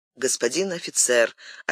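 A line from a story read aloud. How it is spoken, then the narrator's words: Undertone. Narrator (Russian): отвечал Карл II вполголоса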